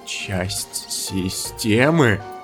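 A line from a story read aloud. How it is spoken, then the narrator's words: Trembling mutter. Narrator (Russian): пробормотал Кляйн дрожащим голосом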